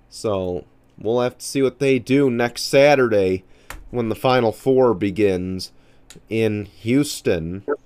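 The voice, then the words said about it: Nasal, congested voice. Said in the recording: “I sound a little nasally. I'm still getting over a cold here.”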